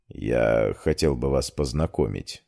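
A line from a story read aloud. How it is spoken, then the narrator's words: Quiet. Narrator (Russian): сказал Амир тихо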